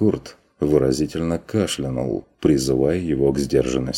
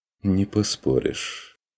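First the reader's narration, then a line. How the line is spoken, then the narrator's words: Quiet agreement. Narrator (Russian): тихо согласился фон Вегерхоф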